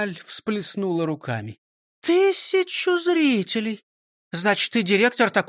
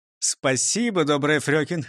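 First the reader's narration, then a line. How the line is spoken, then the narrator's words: Laughing man. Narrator (Russian): рассмеялся Дон Карлос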